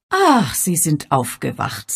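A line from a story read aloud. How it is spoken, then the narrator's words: Plain. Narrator (German): sagte sie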